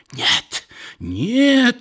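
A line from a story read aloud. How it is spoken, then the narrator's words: Sick woman screaming, strange voice. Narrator (Russian): закричала больная каким-то особым, не бабушкиным голосом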